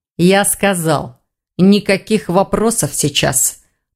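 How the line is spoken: Through gritted teeth. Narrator (Russian): процедил сквозь зубы Хью

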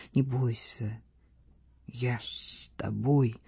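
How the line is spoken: Strained, choked voice. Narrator (Russian): повторил сдавленным голосом

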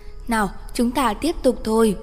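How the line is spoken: Smiling, holding back tears. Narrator (Vietnamese): không chế bản thân bật khóc, mỉm cười nói

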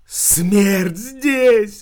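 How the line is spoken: Eerie lifeless howl. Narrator (Russian): взвыла каким-то страшным, неживым голосом красавица

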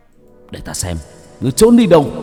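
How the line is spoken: Harsh, gritted voice. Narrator (Vietnamese): Hải Xoa gằn giọng

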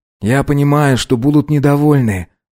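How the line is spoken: Sighed. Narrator (Russian): вздохнул Вагнер

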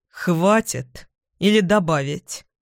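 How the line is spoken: Icy question. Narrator (Russian): Ледяным тоном спрашивает он

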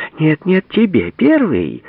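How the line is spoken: Laughing insistence. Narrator (Russian): Смеясь, настаивал Сарл

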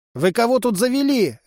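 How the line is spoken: Disconcerted bark. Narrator (Russian): рявкнула обескураженная Тришка

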